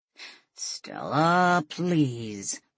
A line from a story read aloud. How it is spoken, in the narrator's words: Roland said under his breath